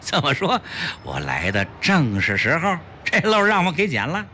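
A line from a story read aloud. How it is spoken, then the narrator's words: Happy laughter. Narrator (Chinese): 齐长鹏高兴地笑道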